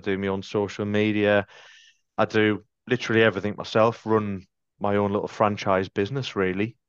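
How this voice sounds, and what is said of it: Sunderland (Mackem) accent. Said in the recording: “I'm in Sunderland, as you can probably tell by my accent... you can differentiate a Geordie and a Macam”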